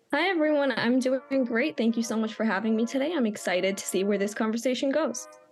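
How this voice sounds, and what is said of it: American accent. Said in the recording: “judging by the accent, we've got someone who is podcasting from the land where the race is happening ... Whereabouts in America are you from”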